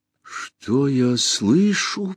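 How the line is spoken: Whispered, ship speaking. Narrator (Russian): прошептал корабль

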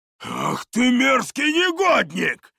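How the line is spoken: Roaring. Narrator (Russian): взревел

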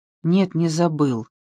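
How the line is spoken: Gloomy whisper. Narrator (Russian): прошептал Франсуа, снова помрачнев

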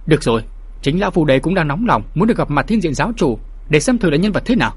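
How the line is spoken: Loud, forceful, restrained emotion. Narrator (Vietnamese): Nam Cung Hạt cố nén cơn xúc động, gằn giọng nói lớn

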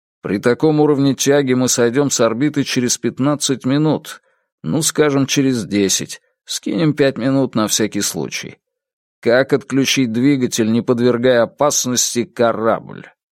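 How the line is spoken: Glum, reluctant. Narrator (Russian): Второй механик Ю уныло ответил довольно неохотно

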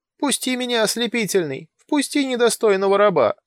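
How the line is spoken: Whining. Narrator (Russian): скулил под дверью козел

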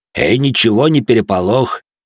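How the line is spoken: Deep bass voice. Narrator (Russian): пробасил Жуль

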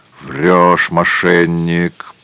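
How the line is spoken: Rough distant growl. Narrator (Russian): прорычал из глубины палатки чей-то грубый голос

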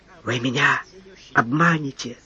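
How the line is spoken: Consumptive man's whisper. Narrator (Russian): прошептал чахоточный

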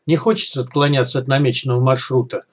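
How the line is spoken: Calm suggestion. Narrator (Russian): спокойно предложил Малахов

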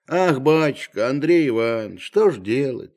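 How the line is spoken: Heavy sigh. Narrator (Russian): тяжело вздохнув, начал Захар

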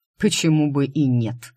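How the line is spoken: Unabashed smirk. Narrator (Russian): без малейшего смущения хмыкнул Дайм

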